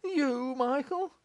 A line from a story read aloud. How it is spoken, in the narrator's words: cried Morris, starting back